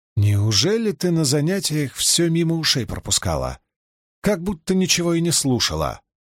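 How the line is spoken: Muttering. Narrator (Russian): пробормотала Илэйн

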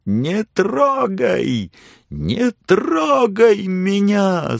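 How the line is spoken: Frantic scream. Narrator (Russian): судорожно завопила она

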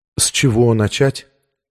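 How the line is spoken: Completely calm question. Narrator (Russian): спросила она совершенно спокойно

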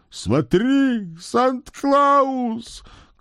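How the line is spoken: Shouting old man. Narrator (Russian): крикнул белобородый хозяин зимы

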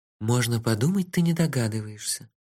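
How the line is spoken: Sighing. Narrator (Russian): вздохнула Техи

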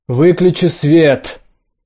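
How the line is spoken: Shouted. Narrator (Russian): крикнула Настя

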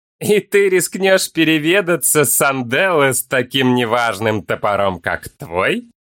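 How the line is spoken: Sudden light laugh. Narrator (Russian): Внезапно легко рассмеялся Олмер

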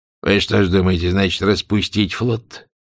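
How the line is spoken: Indifferent question. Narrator (Russian): равнодушным тоном спросил он

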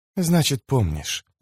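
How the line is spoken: Close whisper in ear. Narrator (Russian): прошептала она ему прямо в ухо

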